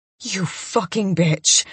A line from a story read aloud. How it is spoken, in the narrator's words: I snarl at her